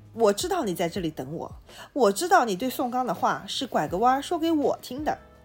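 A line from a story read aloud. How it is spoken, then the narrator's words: Beaming, shameless boasting. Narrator (Chinese): 李光头在月光里喜笑颜开，大言不惭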